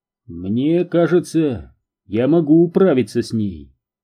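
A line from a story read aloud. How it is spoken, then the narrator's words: Calm. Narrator (Russian): спокойно сказал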